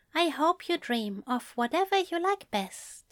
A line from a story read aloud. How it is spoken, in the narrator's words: he said softly